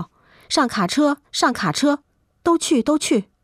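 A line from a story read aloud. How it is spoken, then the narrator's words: Crowd shouting loudly. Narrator (Chinese): 不少人高声喊叫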